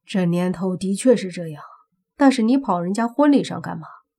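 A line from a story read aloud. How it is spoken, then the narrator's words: Sighing. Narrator (Chinese): 莫凡也跟着叹了口气，说道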